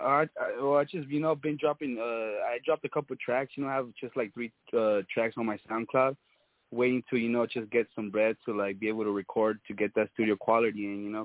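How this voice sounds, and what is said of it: Speaks with a noticeable accent. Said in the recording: “I love your accent. ... I said, I love your accent.”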